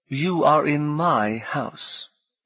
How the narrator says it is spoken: he said as calmly as he could

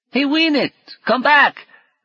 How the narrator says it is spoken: the boy shouted

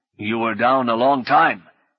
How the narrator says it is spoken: her father said angrily

